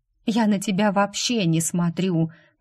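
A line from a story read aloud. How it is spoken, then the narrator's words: Tired, sighing. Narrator (Russian): проговорила Джейд, устало вздыхая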